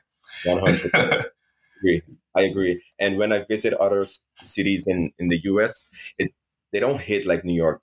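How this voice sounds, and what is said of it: Foreign accent. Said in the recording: “I'm hearing an accent ... You're foreign ... because of my accent”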